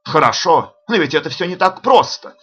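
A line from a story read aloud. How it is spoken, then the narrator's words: Admiring exclamation. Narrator (Russian): воскликнул он, разглядывая меня с восхищением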